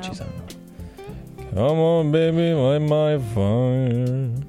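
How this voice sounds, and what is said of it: Imitates another person's voice, singing. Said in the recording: “best Jim Morrison impression ... That was a little too silly”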